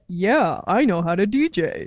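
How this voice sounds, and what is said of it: Imitates another person's voice. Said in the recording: “That's not how I sound. ... Great Eric impression.”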